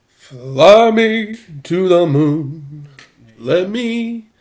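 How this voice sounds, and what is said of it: Imitates another person's singing voice. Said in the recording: “my JT Smith impression”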